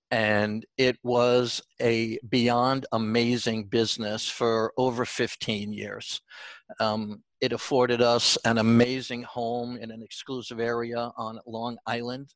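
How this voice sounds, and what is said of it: New York accent. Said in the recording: “my New York accent is coming out”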